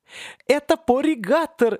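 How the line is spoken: Joyful shout. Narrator (Russian): радостно крикнул Кряка

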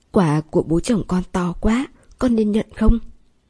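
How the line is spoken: Trembling voice over phone. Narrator (Vietnamese): Sầm Vân gọi điện thoại đến, cất giọng run rẩy

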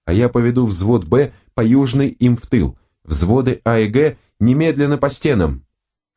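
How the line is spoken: Shout. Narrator (Russian): крикнул он

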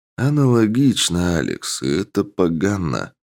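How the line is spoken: Gloomy pronouncement. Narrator (Russian): мрачно изрек ректор

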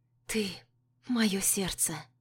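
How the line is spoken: Breathed reply. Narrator (Russian): выдохнула я в ответ

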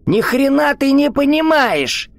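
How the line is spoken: Shrieking. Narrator (Russian): Взвизгнул хозяин

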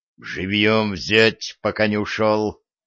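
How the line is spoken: Growl. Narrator (Russian): рыкнул сплетник

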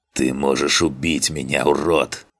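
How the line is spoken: Snake-like hiss. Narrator (Russian): Мой голос похож на шипение змеи

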